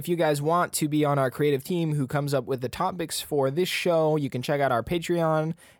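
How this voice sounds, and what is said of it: Scratchy, sore-throated voice. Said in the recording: “My voice is like I have a scratchy throat today.”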